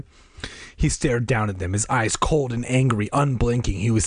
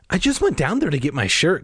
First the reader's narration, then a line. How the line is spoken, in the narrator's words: Casey said, his voice trembling